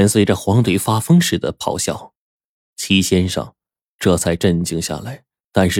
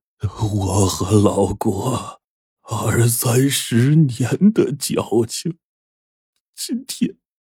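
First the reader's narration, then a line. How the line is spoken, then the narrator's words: Long heavy sigh. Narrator (Chinese): 齐先生长叹了一声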